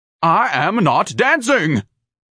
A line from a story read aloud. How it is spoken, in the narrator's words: Ignatius barked